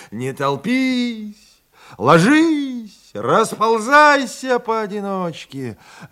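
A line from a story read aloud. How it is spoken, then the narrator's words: Full-throated shout. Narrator (Russian): Зажав пробитую ногу, успел только крикнуть во все горло Гулявин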